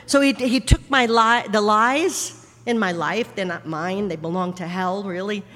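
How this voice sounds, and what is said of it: New York accent. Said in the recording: “this New York accent”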